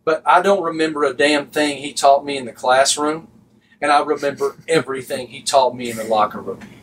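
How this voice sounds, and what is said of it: Noticeable regional accent. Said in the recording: “Y'all think I got an accent.”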